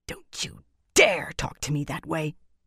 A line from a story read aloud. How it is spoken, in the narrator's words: Galena hissed